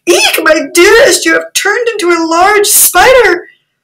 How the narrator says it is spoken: the princess cried out in a faint voice

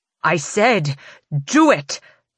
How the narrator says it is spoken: Maven snarls again

